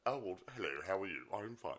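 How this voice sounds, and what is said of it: Posh upper-class English accent. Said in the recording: “he thought Rocky Horror, Dr. Frankenfurter should have a posh accent ... upper class. So he tried to talk like the Queen ... So he put that on ... English posh”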